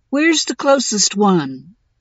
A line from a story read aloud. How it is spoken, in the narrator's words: Winnie asked, and I could hear her yawn